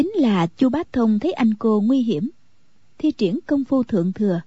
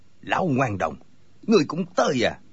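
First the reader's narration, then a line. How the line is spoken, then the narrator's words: Angry. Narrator (Vietnamese): Cừu Thiên Nhận tức giận nói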